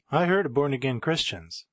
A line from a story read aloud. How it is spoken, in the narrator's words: the cabbie chuckled